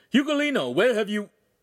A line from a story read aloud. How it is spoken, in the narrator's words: The master shouted